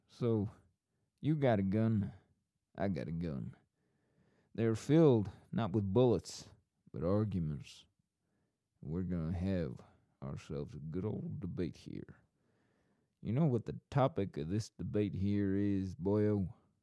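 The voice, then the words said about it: Put-on accent. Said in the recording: “I've lost the accent. I do like the accent.”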